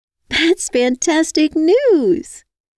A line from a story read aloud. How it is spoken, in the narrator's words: I squealed